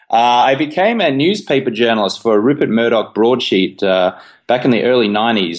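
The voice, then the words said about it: Australian accent. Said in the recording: “as you can tell from my, you know, silly accent, I'm Australian”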